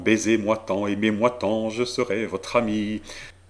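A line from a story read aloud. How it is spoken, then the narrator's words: Joyful smiling whisper. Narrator (French): elle fut réjouie, et me dit tout bas en souriant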